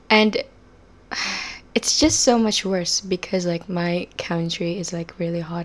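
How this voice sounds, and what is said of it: Slightly unusual Southeast Asian English accent. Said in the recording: “I live in Southeast Asia ... my accent is a little weird too”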